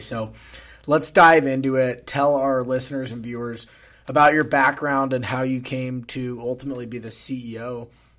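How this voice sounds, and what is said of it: Hoarse, raspy voice. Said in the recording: “forgive the hoarse voice. I am trying to get over this cold ... pardon the raspy voice”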